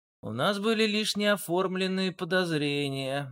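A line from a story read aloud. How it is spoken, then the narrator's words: Gloomy reminder. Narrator (Russian): мрачно напомнил Дронго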